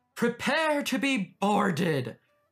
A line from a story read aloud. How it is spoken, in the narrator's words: he bellowed